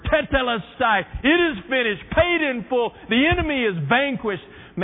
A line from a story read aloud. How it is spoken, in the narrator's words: Jesus screamed out that last word